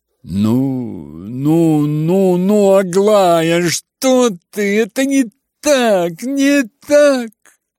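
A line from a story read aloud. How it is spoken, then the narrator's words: Frightened mutter. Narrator (Russian): испуганно бормотал Иван Федорович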